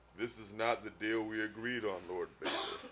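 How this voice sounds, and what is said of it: Imitates another person's voice. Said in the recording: “Why did my voice get all Billy D. Williams just then?”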